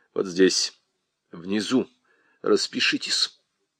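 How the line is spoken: Quiet. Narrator (Russian): сказал тихо

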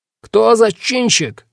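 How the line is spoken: Yelling. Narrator (Russian): заорал сержант

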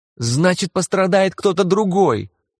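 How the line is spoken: Shriek. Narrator (Russian): взвизгнула Кармен

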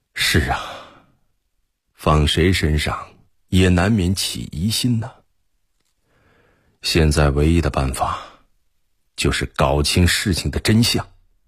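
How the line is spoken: Sighing. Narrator (Chinese): 贺仁杰叹息着说

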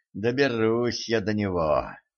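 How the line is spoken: Through gritted teeth. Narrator (Russian): процедила Кэтран

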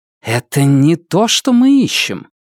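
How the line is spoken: Annoyed hiss. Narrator (Russian): Нефрита, с досадой зашипев

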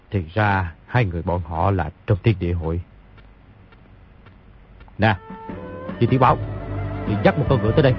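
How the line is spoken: Muttering to oneself. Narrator (Vietnamese): Nhìn thấy hai người đi đã xa, bèn lẩm bẩm

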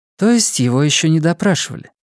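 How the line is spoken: Sighing policeman. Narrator (Russian): Полицейский вздохнул

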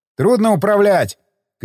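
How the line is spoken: Shouting. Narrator (Russian): крикнул я

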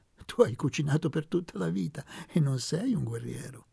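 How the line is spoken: Laughing. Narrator (Italian): aggiunse ridendo

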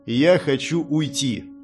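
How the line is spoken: Cold, recovering from shock. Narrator (Russian): холодно сказал я, справившись с шоком

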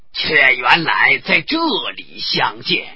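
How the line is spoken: Monk, laughing. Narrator (Chinese): 那和尚笑道

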